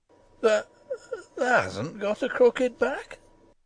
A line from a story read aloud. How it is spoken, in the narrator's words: he said hoarsely